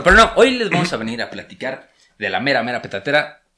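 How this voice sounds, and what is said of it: Announcer-style broadcaster voice. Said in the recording (Spanish): “voz de locutor”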